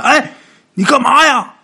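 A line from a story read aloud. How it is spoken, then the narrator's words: Shouting. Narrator (Chinese): 这黄泉就喊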